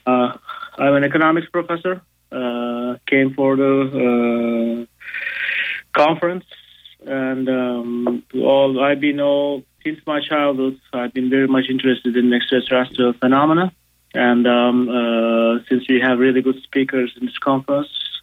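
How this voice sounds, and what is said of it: Turkish-accented English. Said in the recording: “As you can guess from my accent, I'm not American. I'm from Turkey”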